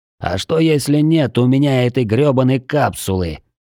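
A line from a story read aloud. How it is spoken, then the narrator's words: Growled through teeth. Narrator (Russian): сквозь зубы прорычал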